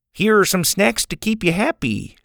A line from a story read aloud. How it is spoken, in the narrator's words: he said brightly